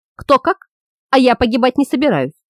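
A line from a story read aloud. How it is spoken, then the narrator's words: Angry curt remark. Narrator (Russian): зло бросил Свам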